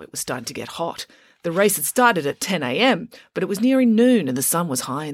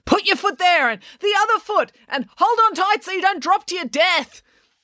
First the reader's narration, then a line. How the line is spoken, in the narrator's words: April screaming instructions at him